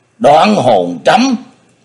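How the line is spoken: Panicked cry. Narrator (Vietnamese): Phong Tăng Nhất Phàm kêu lên một tiếng thất thanh

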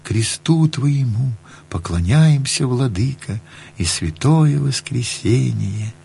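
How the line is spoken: Soft chanting to oneself. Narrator (Russian): напевал тихо, как про себя

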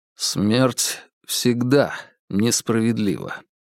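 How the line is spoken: Very quiet. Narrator (Russian): очень тихо отозвался Вербин

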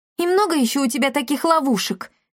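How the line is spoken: Shouted. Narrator (Russian): крикнула ведьме Дарина

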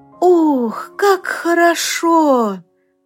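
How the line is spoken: Little leaf exclaiming. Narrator (Russian): воскликнул один листочек

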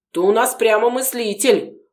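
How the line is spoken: Mocking chuckle. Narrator (Russian): хмыкнул один из милиционеров

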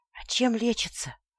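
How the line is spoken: Whispered question. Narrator (Russian): спросила почему-то шепотом

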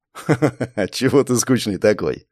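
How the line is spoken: Laughing. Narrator (Russian): засмеялся Морецкий

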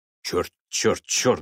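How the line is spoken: Muttering. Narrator (Russian): бормотал Элтон, явно не зная, как поступить

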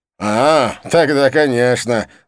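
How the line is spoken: Laughing loudly. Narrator (Russian): захохотал он

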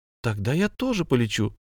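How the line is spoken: Girl's exclamation. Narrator (Russian): воскликнула девушка

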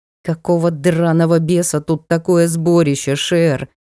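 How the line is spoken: Through gritted teeth. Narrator (Russian): осведомилась я сквозь зубы

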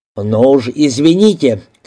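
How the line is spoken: Shout. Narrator (Russian): крикнул

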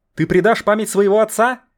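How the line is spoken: Shout. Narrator (Russian): выкрикнул кто-то

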